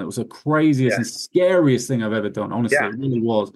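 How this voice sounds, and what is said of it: Speaks English with an accent. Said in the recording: “I have an accent. By the way, if you can't understand me, just put it in the notes here because I have an accent.”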